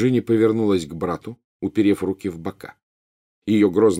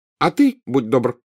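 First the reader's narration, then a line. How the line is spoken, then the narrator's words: Angry. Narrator (Russian): сердито прибавила она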